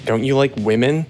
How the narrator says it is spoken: she said

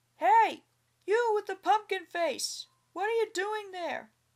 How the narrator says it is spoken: he called out

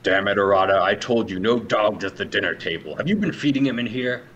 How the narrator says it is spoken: has like a guttural growl, and he says

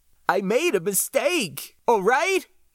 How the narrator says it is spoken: He pleaded, tears rolling down his cheeks

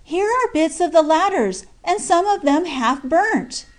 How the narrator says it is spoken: Jack Ryan exclaim

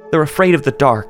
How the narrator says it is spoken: she had pleaded

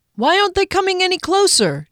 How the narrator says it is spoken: Derry yelled through the whistling wind

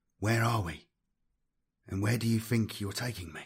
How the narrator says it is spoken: he whispered

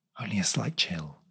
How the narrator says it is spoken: whispered back

